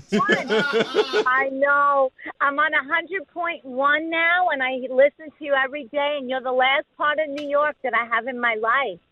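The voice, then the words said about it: New York accent. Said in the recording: “You still sound like you're in New York ... other New Yorkers like you who have moved to Florida, who still have their accent”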